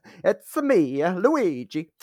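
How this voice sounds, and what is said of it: Cartoonish Super Mario accent. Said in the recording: “Super Mario ... accent.”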